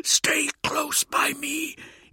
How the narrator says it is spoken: Ida Hellwulf hissed

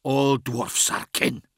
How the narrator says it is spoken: hissed the dwarf, as though he was being willfully dense

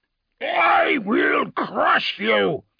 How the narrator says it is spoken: the tyrant roared, his amplified voice echoing from the surrounding buildings

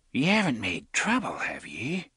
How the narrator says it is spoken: she whispered

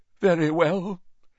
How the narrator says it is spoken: said Professor Trelawney, in a deeply wounded voice

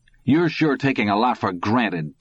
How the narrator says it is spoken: Todd said hotly

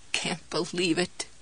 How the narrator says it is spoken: she croaked

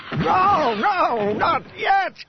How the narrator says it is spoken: came a howling voice that Han recognized as Morath Duel's

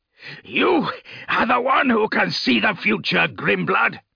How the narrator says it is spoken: Redmore roared, his words echoing through the chamber

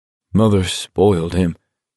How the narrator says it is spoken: Abraham said in a trembling voice

